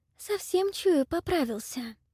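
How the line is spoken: Trembling cooing. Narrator (Russian): трепещущим голосом проворковала Млада

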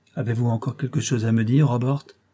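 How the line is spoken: Calm voice. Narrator (French): demanda-t-il d'une voix calme

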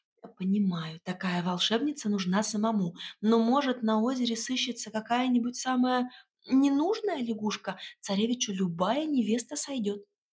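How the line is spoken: Confiding whisper. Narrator (Russian): доверительно зашептала

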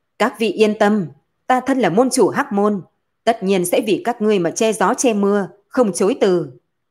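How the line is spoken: Loud. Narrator (Vietnamese): Hắn lớn tiếng nói

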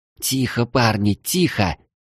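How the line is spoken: Witch hissing. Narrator (Russian): прошипела ведьма

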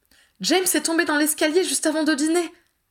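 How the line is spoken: Excited announcement. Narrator (French): annonça-t-elle d'un ton excité

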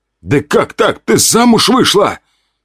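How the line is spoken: Loud carrying shout. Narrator (Russian): крикнул на весь коридор

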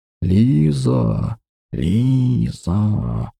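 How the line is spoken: Hissing whisper. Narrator (Russian): Шепот, больше похожий на змеиное шипение

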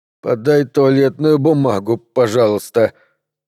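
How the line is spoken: Muffled trembling voice. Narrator (Russian): проговорил Джинглс глухим дрожащим голосом

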